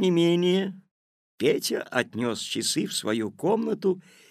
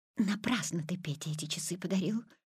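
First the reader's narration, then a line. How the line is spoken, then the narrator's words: Whisper. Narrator (Russian): шепотом сказала мама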